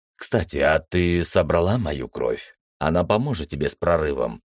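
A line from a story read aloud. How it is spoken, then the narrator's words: Quiet question. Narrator (Russian): тихо спросил я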